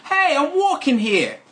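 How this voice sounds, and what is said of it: Put-on New York accent. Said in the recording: “To do a New York accent”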